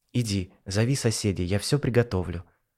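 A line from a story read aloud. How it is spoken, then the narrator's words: Affectionate, gentle. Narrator (Russian): ласково сказала она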